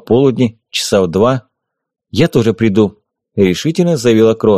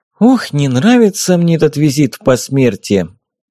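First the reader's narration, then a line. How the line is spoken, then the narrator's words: Sighing. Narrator (Russian): Каролина вздохнула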